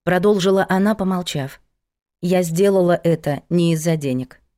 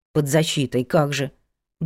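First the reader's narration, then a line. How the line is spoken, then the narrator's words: Grumbled. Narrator (Russian): буркнул Петя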